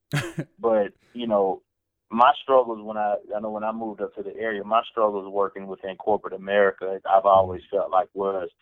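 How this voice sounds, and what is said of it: Southern US accent. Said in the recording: “I'm from the South, Luke, and I think a lot of people can probably tell when I talk. ... my accent, my dialect, where I come from”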